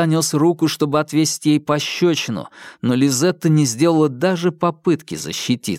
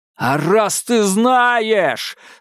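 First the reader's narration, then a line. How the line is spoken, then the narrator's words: Echoing bellow. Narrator (Russian): заорал он так, что эхо отозвалось в холмах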